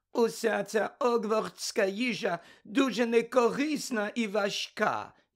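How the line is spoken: Grumpy scolding voice. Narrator (Ukrainian): сказала вона сварливим голосом

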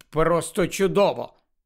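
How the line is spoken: Grumbling, suppressing laughter. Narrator (Ukrainian): Герміона ледь стрималася від сміху, буркнула

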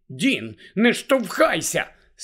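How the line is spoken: Angry girl. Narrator (Ukrainian): сердито промовила дівчина

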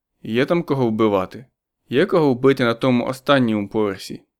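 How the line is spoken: Soft laugh. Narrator (Ukrainian): Кіліан тихенько засміявся

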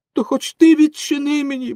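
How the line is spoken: Pleading shout. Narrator (Ukrainian): благально закричав Пінокіо

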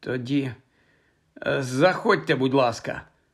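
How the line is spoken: Slightly hoarse. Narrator (Ukrainian): хриплувато мовила вона

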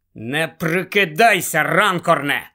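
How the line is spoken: Furious hiss. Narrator (Ukrainian): люто прошипів містер Уізлі

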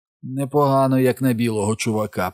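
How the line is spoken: Hoarse voice. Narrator (Ukrainian): прохрипів Майк

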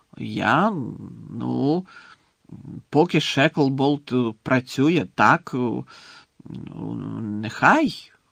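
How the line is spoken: Unconvincing mumble. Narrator (Ukrainian): непереконливо пробурмотів прем'єр-міністр

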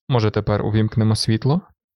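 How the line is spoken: Gentle question. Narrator (Ukrainian): лагідно запитав

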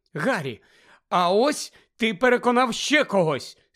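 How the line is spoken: Excited exclamation. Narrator (Ukrainian): схвильовано вигукнула Герміона

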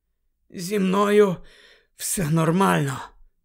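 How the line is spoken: Hoarse rasp. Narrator (Ukrainian): прохрипів він

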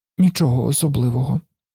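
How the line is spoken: Child's mutter. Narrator (Ukrainian): пробурмотів малий

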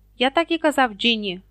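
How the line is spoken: Angry reply. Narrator (Ukrainian): сердито озвався Персі

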